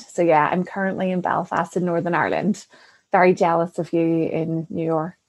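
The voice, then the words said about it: Northern Irish accent. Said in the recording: “this beautiful accent that you can hear is Northern Ireland”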